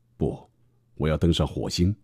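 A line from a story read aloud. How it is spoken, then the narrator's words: Smiling. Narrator (Chinese): 马斯克笑眯眯地说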